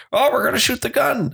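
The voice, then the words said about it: Imitates another person's voice. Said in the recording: “I'm trying to do an Alex impression while I'm sick.”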